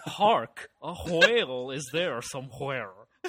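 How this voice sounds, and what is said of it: Put-on American accent, V/W mixed. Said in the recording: “whenever I'm doing an American accent, I do it like Al Gore on 30 Rock ... India's inability to distinguish between V and W”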